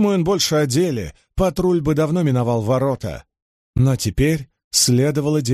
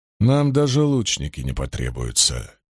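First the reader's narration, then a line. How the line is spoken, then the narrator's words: Quiet. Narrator (Russian): тихо произнес Айрам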